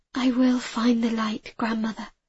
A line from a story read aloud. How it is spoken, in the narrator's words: I whispered